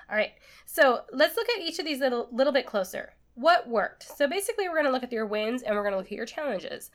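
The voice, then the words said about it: Slightly congested, stuffy voice. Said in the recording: “I do have a bit of a cold today, so you're gonna hear that in my voice”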